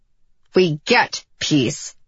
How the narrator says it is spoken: Cedar said through gritted teeth

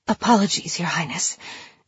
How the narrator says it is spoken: the girl whispered

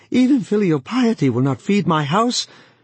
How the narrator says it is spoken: Wang Lung cried out

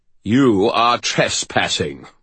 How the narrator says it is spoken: boomed the magistrate

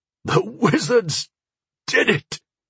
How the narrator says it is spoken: Sire Kay sputtered, coughing up filthy lake water

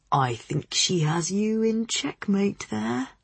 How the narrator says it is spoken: Freddy murmured

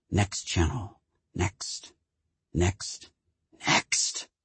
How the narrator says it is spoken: she would whisper to herself

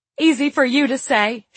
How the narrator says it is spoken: she had yelled

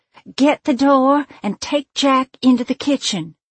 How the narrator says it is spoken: I half-yelled, half-whispered

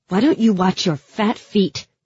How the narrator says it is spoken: snapped

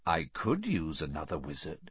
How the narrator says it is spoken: said the first voice softly

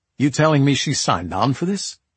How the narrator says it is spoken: I said

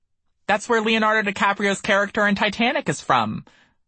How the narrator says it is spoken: I exclaimed

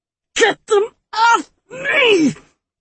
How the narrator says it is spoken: the woman shrieked

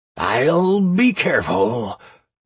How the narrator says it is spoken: Draco roared at me

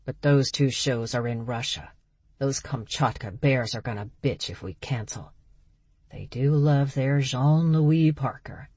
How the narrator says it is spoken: Berg sighed

